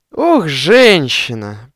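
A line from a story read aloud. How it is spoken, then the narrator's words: Groaning. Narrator (Russian): простонал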